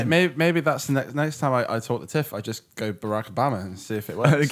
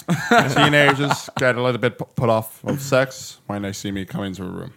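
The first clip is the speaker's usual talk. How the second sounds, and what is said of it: Barack Obama impression. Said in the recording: “doing an impression of Barack Obama”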